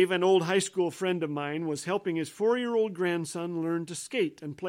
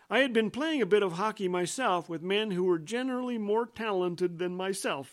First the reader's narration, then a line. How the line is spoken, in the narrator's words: says Dave